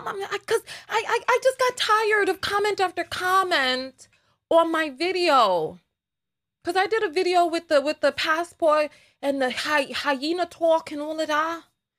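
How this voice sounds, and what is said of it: Strong New York accent. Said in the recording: “My New York is so strong today ... dampen my accent.”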